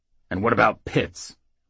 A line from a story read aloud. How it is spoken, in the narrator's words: Rednail snarled